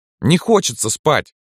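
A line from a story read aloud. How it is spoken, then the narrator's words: Loud. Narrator (Russian): громко объяснил Митька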